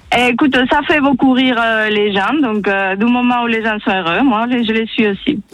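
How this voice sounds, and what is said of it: Spanish accent speaking French. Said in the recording (French): “Ton accent, mon Dieu, il est magnifique ... C'est beau l'accent espagnol.”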